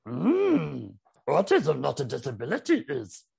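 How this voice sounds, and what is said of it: Yoda impression. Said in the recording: “I can do quite a good Yoda impression ... Hey, not bad.”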